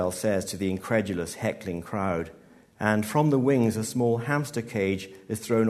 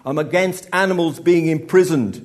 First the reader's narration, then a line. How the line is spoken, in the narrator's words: he bellows